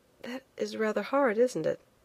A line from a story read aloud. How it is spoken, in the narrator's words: I said quietly